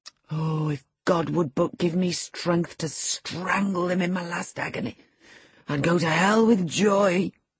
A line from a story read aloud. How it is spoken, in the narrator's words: groaned the impatient man, writhing to rise and sinking back in despair